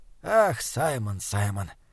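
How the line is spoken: Soft laugh. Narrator (Russian): тихо засмеялся доктор

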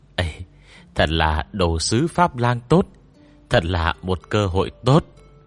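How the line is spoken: Regretful. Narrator (Vietnamese): Lão Lý nói với giọng tiếc nuối

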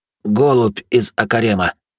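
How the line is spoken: Trembling voice. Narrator (Russian): дрогнувшим голосом доложил Град

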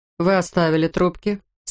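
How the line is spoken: Plain question. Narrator (Russian): спросил О'Лири

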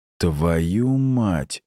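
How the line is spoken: Dazed hoarse wheeze. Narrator (Russian): просипел я, медленно приходя в себя

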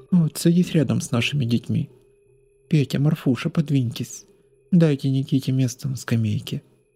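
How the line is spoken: Flat, colorless, sickly voice. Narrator (Russian): каким-то бесцветным голосом сказала она мне, еще раз наведя меня на мысль о ее тяжелой болезни

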